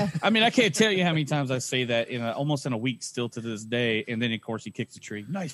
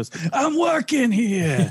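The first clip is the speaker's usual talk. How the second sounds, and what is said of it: Jersey New York accent. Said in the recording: “he throws it at you like a Jersey, you know, New York accent.”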